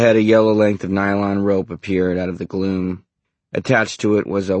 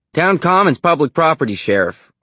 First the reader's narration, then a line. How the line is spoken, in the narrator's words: cried